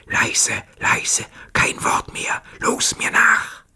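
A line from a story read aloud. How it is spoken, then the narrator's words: Whispered. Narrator (German): flüsterte seinen Kameraden zu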